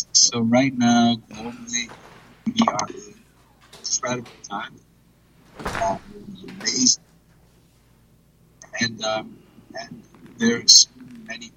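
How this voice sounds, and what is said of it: Hoarse, strained, nearly lost voice. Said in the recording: “lost my voice”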